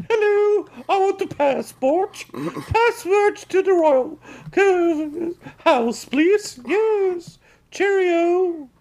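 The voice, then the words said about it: Put-on British Queen accent. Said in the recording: “I do a very good British Queen accent ... I don't think you could trick anybody at the Royal Palace”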